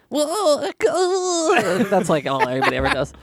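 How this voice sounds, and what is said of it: Imitates a cartoon character's voice. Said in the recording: “your impression of you... it always ends up being Professor Frank from The Simpsons... Jerry Lewis”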